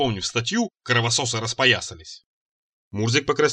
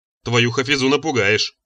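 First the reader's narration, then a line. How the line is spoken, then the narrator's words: Grumbling. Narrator (Russian): проворчал я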